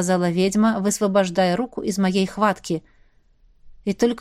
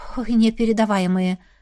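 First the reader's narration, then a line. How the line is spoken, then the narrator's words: Breathless exhale. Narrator (Russian): выдохнула я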